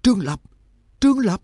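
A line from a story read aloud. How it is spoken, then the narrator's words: Panicked cry. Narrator (Vietnamese): Tim của Nhạc Dương thắt lại, chỉ nghe anh thất thanh kêu lên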